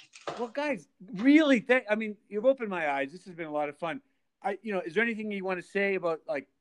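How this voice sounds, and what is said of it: Usual voice. Nothing is said of it.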